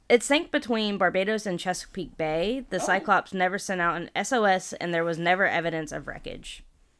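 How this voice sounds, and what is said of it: American Southern accent. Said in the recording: “I got that southern accent.”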